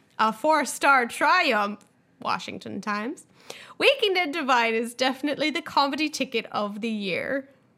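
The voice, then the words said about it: Terrible put-on Irish accent. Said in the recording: “That was pretty terrible Irish accent right there.”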